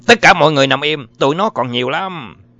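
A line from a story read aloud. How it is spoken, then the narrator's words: Loud shout. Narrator (Vietnamese): Gary Malone tiếp tục hét to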